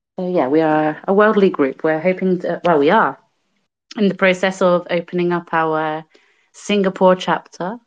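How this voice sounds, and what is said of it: British accent. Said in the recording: “as you may be able to tell from my accent, I am originally from the UK”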